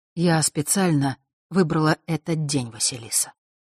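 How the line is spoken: Soft. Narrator (Russian): мягко продолжила она

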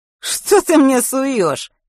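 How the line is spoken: Young man snorting. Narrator (Russian): хмыкнул парень в ларьке

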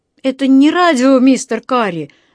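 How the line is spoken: Shouted reply. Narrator (Russian): закричал он в ответ

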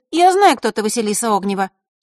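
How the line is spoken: Angry interruption. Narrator (Russian): сердито перебила маленькая фея

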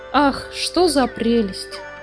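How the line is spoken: Exclaimed. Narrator (Russian): воскликнула Фрекин Снорк

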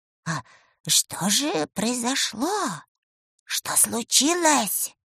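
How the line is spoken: Whispered question, old witch. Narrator (Russian): шепотом спросила баба-яга

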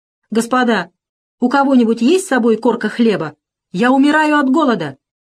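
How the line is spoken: Loud king. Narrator (Russian): Король громко сказал

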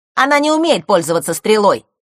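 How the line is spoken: Quick shout. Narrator (Russian): тут же выкрикнул Норд

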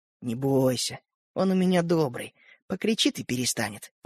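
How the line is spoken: Whisper. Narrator (Russian): прошептал Родька Светлику

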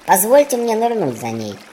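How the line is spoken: Mouse squeak. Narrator (Russian): пискнул мышь

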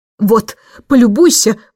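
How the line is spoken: Roaring reply. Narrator (Russian): взревел он в ответ

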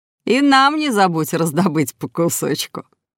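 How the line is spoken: Chuckling. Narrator (Russian): хохотнул папа

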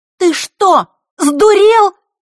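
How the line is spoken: Girl's ringing agitated shout. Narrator (Russian): закричала девочка, звенящим от волнения голосом

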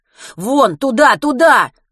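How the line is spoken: Shouting. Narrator (Russian): закричал Матвей

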